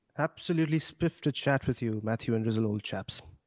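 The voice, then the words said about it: Put-on posh British accent. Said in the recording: “I thought this was going to be a posh conversation ... It's a bit British.”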